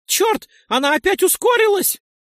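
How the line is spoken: Frightened shout. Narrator (Russian): Испуганно прокричал Нойс

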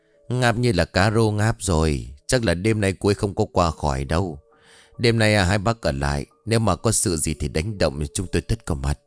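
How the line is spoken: Suppressed sigh. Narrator (Vietnamese): nén tiếng thở dài

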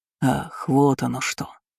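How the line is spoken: Forced politeness, suppressed rage. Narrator (Russian): Я насильно выдавил из себя вежливую усмешку, хотя каждый мускул моего лица напрягся от ярости

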